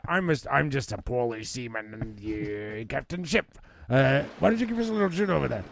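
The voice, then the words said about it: Put-on pirate accent. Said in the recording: “the fucking pirate noise ... what the heck the accent you is you're doing”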